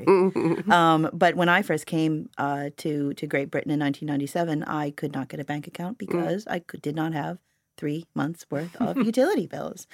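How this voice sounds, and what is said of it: Non-native speaker's accent. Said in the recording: “you listeners can tell from ... and myself's accents that we weren't born in this country”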